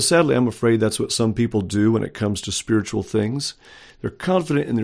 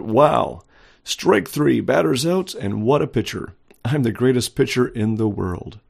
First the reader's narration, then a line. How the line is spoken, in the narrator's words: Undiscouraged cried out